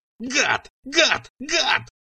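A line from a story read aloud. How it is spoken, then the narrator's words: Shrill scream. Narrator (Russian): завопила Цира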